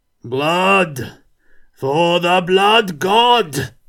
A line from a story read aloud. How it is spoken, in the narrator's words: roared the Norseman